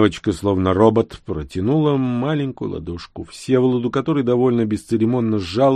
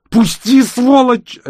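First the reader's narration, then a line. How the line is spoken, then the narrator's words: Desperate scream. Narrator (Russian): отчаянно закричала она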